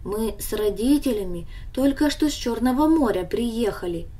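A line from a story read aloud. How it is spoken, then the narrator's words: Calm explanation. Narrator (Russian): объяснил он ей спокойно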